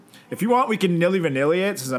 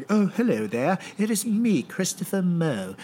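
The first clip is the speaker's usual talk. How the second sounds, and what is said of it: Put-on British accent. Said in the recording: “do a British accent ... I'm pretty good with accents”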